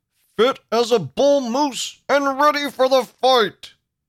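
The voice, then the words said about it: Imitates another person's voice. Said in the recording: “my bad Teddy Roosevelt impression”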